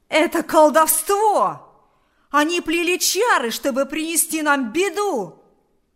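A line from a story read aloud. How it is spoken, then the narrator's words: Shouting. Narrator (Russian): закричал Кузька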